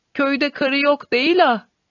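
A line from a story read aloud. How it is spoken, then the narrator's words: Crying out. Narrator (Turkish): diye haykırıyordu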